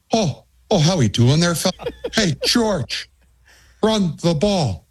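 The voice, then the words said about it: Imitates another person's accent. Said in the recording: “Ferentz ... A great accent.”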